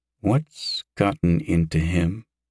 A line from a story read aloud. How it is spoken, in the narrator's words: Yosef mumbled into the air